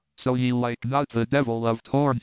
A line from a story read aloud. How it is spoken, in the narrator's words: he asked